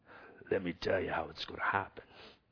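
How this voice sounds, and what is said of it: Bad Godfather impression. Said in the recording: “the godfather ... That's a horrible impersonation.”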